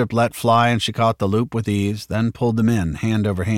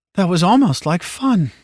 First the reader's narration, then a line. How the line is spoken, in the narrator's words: she said wistfully